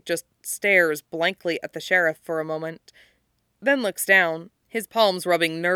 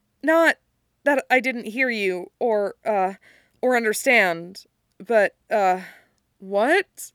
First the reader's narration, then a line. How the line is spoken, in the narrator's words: He adds hastily